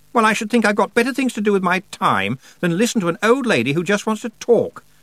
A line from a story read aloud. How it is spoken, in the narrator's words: said Anna Grammer indignantly